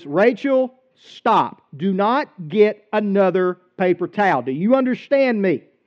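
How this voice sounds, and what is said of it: Stern, serious parental voice. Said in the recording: “used my dad voice ... getting serious about it”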